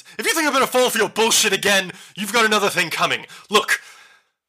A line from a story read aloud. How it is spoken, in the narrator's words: starts yelling and she says